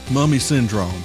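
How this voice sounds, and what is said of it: Spooky voice like professional wrestler. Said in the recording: “spooky voice? It was a little bit like a professional wrestler.”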